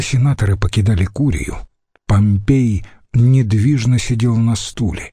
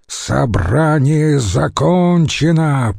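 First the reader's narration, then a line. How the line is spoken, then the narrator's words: Growled. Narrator (Russian): прорычал он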